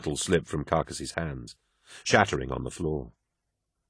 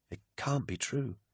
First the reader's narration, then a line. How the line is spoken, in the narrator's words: whispered Mercedes